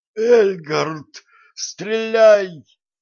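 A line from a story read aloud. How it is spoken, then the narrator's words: Wheezing. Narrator (Russian): просипел Некрон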